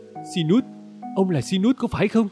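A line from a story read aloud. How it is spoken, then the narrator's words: Emotional exclamation. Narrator (Vietnamese): Cô ta xúc động kêu lên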